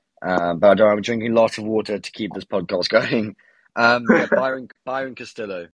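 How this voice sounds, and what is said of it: Hoarse, failing voice. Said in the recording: “My voice is just going ... I've been coughing the whole day and my voice is just going”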